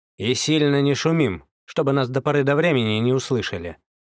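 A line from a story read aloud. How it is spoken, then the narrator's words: Stern. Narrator (Russian): строго проговорил Козлов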